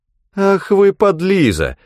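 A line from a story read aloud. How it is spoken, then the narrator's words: Laughing. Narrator (Russian): засмеялась Гортензия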